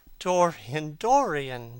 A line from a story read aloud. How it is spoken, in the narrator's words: she cried